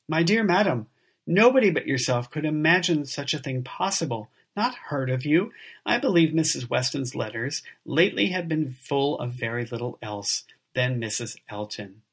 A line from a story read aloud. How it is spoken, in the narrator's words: Weston, with a very good grace, immediately exclaimed